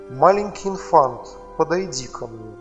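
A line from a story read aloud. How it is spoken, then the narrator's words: Plain. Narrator (Russian): сказала незнакомка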